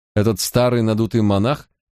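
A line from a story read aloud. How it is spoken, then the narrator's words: Contemptuous snort. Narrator (Russian): пренебрежительно фыркнула вдова Гриствуд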